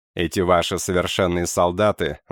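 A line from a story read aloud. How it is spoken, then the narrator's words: Laughing. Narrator (Russian): засмеялся я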